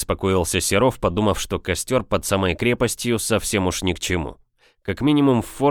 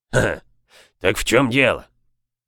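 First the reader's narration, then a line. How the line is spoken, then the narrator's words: Hoarse voice. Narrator (Russian): Произнес хрипатый Боб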